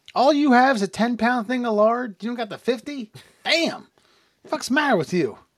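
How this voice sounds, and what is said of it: Put-on Amish character voice. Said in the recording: “That's my Amish impersonation.”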